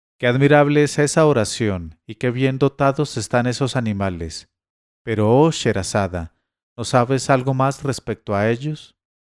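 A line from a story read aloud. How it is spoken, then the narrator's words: King exclaiming. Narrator (Spanish): el rey Shahriar exclamó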